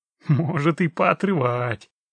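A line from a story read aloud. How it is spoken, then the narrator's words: Chuckling biker. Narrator (Russian): хохотнул байкер, по всей видимости, Митяй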